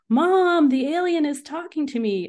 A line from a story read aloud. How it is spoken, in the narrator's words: I shouted to my mom, who was still inside the house